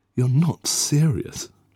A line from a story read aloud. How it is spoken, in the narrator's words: she exclaimed